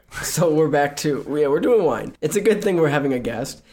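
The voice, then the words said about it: Slightly rough voice after a cold. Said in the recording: “my voice is a little weird. I'm just coming off a cold.”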